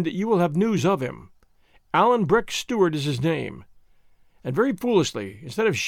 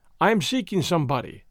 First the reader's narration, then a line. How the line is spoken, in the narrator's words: said I